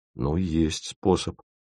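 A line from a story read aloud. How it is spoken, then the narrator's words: Mumble. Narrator (Russian): промямлил Витя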